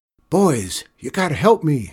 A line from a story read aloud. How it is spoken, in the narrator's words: Shorty yelped